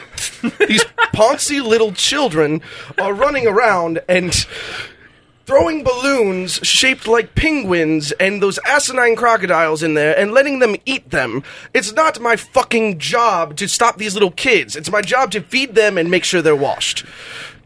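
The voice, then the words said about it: Put-on British accent. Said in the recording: “Just do a British accent. ... British accent.”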